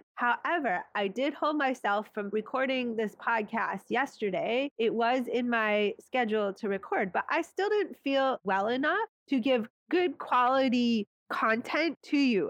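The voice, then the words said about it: Raspy, nasally congested voice. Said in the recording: “my voice feels raspy, I'm still a little nasally congested. I'm definitely not 100%.”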